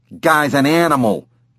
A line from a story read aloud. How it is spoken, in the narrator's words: Billy said